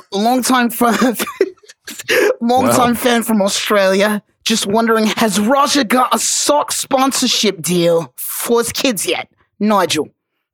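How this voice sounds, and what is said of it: Attempted Australian accent, amateurish. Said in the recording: “I'm gonna try my best here ... I'm trying, man. That's like my second time ever I've tried an Australian accent.”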